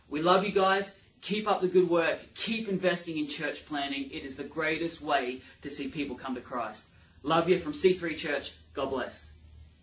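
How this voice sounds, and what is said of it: Australian accent. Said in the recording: “an Aussie accent”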